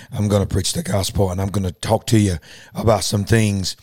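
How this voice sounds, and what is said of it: Strained, worn-out voice. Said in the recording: “my voice is not great ... I'm recovering in my voice right now, so I don't know how good this is going to sound”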